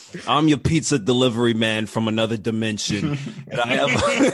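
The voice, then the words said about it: Imitated New York accent. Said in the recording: “Cabal is the guy with the New York accent, right?”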